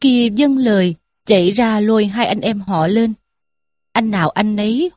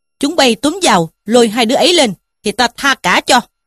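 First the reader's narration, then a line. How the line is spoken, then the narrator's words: Shouting commands. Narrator (Vietnamese): Trí Thâm quát lũ kia mà bảo rằng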